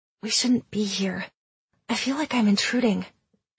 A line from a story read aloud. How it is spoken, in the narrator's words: whispered